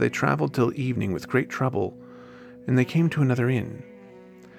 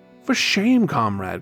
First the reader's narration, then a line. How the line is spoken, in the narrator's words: cried the others